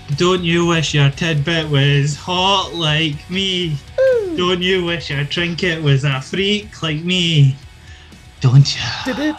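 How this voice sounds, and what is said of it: Sings imitating someone's entrance music. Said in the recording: “your Mandy Rose music impersonation.”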